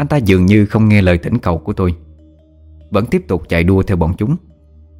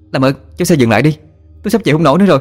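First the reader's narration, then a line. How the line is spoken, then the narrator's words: Shouting over wind. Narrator (Vietnamese): Tôi hét lên trong tiếng gió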